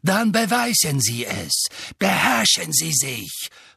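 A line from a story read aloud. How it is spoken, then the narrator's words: Hissing. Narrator (German): fauchte Snape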